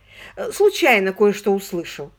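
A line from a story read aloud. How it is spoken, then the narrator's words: Indignant correction. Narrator (Russian): возмущенно поправил мистер Риджет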